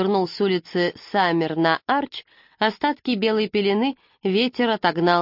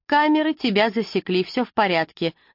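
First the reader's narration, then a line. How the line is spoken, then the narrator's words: Rapid chatter. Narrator (Russian): затараторила милая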